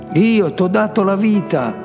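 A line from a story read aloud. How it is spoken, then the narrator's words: Shouted. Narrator (Italian): Myers ricordava di avergli gridato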